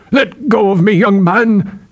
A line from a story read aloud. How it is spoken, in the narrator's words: Aethor had roared